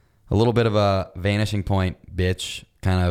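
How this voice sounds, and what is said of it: Usual voice. Nothing is said of it.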